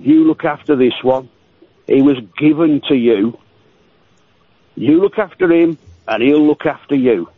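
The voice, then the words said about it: Old woman's Scottish accent. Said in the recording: “that's an old Scottish accent she was using”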